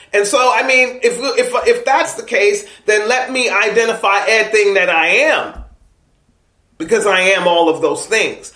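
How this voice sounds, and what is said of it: East Coast American accent. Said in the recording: “People always know I'm from the East Coast, not just by my accent”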